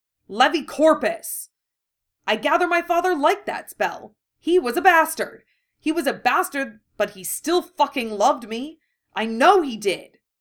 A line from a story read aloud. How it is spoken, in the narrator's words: Harry shouted